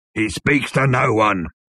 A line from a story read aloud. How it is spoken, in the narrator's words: bellowed the bodyguard